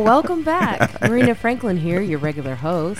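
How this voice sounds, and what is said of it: Sultry, sexy voice. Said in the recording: “I do a little bit of a sexy voice ... It is a sexy voice.”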